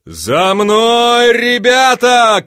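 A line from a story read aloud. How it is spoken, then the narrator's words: Shouting. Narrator (Russian): кричал Панов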